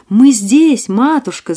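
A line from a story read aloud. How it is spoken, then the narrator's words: Shouting. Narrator (Russian): закричали они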